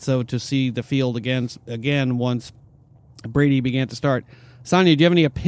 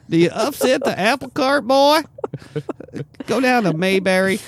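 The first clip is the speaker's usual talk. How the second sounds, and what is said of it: Old man voice. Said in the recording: “That was a good old man voice.”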